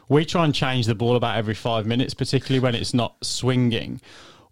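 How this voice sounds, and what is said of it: English accent. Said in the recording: “I'm an Englishman, as you can probably tell from my accent”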